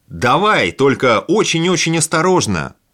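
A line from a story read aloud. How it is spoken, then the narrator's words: Shouted from afar. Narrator (Russian): крикнул с другого берега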